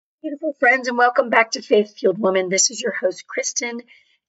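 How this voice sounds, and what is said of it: Hoarse voice. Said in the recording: “I am hoarse”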